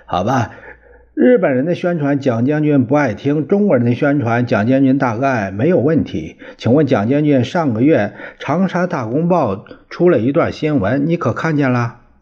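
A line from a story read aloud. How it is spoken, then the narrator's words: Quick, smiling. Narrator (Chinese): 外国记者连忙笑着说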